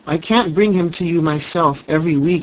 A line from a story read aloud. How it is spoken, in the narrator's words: she cried